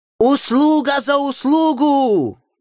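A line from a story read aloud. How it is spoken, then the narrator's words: Shout. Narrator (Russian): крикнул англичанин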